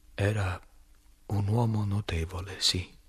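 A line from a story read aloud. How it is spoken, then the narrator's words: Shaky voice. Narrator (Italian): dissi con voce malferma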